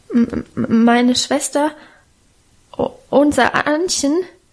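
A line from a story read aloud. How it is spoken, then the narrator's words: Stammering. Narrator (German): stotterte er vor dem gelben, knochigen Gesicht der Alten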